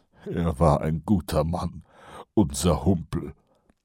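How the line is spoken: Mutter. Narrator (German): murmelte Kolon

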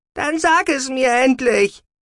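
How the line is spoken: Shouted. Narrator (German): schrie Sahira

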